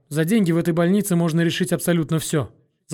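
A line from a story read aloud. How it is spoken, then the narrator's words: Rapid patter. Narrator (Russian): скороговоркой быстро произнесла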